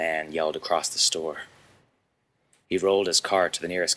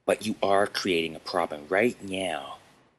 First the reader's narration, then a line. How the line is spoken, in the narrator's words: Chad replied